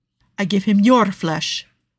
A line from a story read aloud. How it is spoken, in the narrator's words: Nicolo snapped back, his eyes flashing angrily